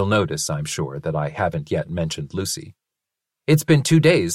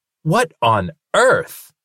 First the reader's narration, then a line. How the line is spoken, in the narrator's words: he exclaimed